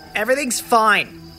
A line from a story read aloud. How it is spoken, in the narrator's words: I snapped, keeping up the facade that I was angry